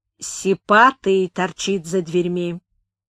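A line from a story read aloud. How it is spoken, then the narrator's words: Undertone. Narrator (Russian): хозяин сказал вполголоса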